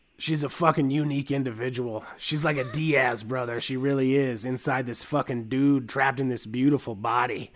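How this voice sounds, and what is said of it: Truck stop waitress voice. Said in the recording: “That voice is not anywhere near creepy enough for this quote ... you sound like a truck stop waitress”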